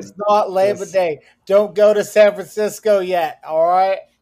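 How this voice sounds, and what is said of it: Poor put-on Boston accent. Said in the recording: “I can't say all right in the Boston accent. I feel like my accent was as good as fucking Freddie Prinze's”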